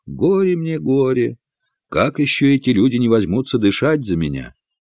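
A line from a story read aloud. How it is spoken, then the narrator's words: Resigned sighing mutter. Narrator (Russian): с покорным вздохом пробормотал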